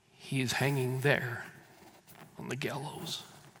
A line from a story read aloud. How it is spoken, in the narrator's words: a voice softly within himself said